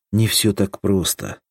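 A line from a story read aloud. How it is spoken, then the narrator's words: Sigh. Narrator (Russian): вздохнул Крайнев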